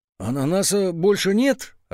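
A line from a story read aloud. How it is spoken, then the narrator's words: Bewildered mutter. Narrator (Russian): растерянно пробормотал Петя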